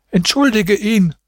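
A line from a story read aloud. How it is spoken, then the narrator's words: Old woman calling. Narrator (German): rief die Alte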